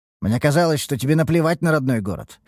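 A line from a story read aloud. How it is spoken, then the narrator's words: Snorting. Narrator (Russian): хмыкнул я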